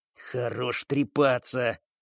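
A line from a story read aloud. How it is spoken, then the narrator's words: Nervous hiss under breath. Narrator (Russian): начиная нервничать, прошипел под нос Солянка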